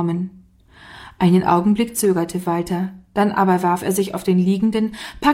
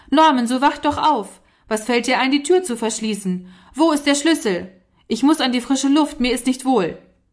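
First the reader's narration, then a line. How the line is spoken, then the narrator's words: Angry, stamping shout. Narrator (German): Endlich stampfte er heftig mit dem Fuß und rief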